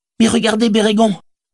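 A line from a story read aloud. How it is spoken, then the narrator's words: Exclaimed. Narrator (French): s'écria-t-il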